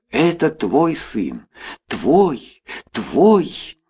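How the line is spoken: Secret insistent whisper. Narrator (Russian): Тайный голос нашептывал

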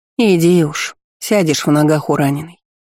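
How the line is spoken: Plain. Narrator (Russian): сказали

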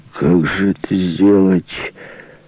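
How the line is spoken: Mutter, soaked young man. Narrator (Russian): пробурчал мокрый как мышь парень

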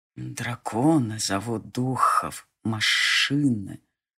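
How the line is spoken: Whispered reply. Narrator (Russian): тоже шепотом откликнулся Хельми

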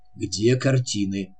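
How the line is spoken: Quiet. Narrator (Russian): тихо проговорил он

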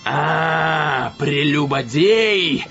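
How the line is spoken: Growled. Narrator (Russian): зарычал

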